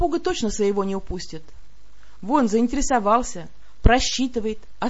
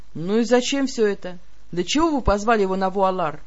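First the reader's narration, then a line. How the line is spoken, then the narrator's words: Scoffing snort. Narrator (Russian): Я хмыкнула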